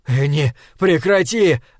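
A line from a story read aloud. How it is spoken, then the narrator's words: Shout. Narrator (Russian): закричал Пол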